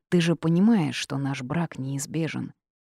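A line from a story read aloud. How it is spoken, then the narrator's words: Quiet asking. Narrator (Russian): тихо спросил Джейс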